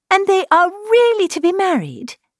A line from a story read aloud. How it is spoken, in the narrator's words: cried Elizabeth